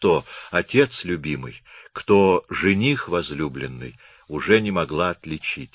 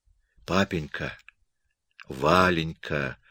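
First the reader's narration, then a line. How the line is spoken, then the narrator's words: Sleepy whisper. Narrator (Russian): шептала в полусне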